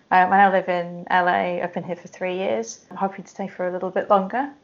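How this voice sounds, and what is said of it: British accent. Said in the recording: “originally from the UK, as you can tell from my accent.”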